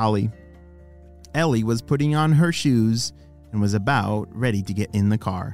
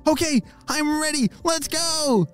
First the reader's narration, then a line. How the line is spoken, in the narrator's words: shouted Ollie